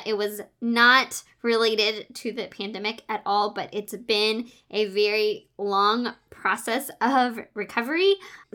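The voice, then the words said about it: Voice still not completely normal. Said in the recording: “my voice wasn't completely normal, and it still is not completely normal”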